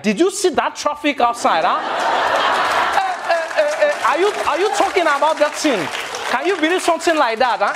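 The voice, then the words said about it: Imitated Nigerian accent. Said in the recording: “I love the Nigerian accent. Because, like, the Nigerian accent does to English what English desperately needs”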